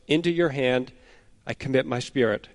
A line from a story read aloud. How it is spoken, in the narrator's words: he cries out again with a loud voice